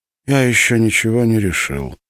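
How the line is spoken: Weary. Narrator (Russian): устало ответил Гермес

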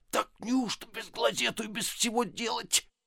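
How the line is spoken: Muttering. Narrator (Russian): Безенчук по обыкновению бормоча

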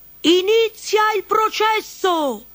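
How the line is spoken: Distant shout. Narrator (Italian): si udì un grido in lontananza

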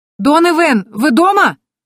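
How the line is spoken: Shouting. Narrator (Russian): закричала я

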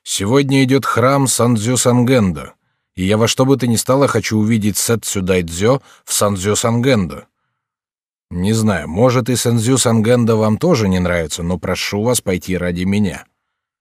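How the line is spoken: Categorical, firm. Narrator (Russian): она объявила категорическим тоном

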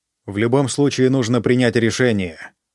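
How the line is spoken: Plain. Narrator (Russian): сказал Китадо

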